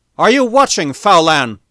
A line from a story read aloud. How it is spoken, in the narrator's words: cried Stark inside himself